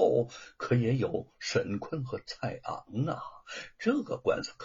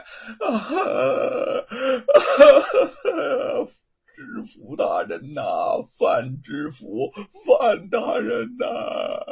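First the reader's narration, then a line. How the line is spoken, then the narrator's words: Sudden wailing protest. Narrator (Chinese): 披麻戴孝的罗庞突然冲进来，哭喊着叫冤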